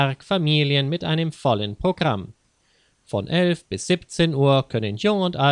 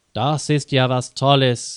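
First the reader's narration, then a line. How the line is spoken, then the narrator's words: Plain. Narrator (German): sagte Lisa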